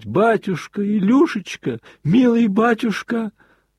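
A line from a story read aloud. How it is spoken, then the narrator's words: Sobbing, wailing cries. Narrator (Russian): как в бессилии, как сраженный, вопия и рыдая, начал выкрикивать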